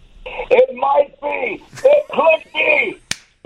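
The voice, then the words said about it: Harry Caray impression. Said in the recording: “I thought he was playing a recording of Harry Carey there ... That's a great impersonation ... That's better than Will Ferrell.”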